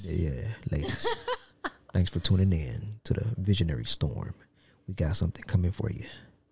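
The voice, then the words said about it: Smooth late-night radio DJ voice. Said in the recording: “That doesn't sound like you trying to be on late night radio. ... See, now that's my late night voice”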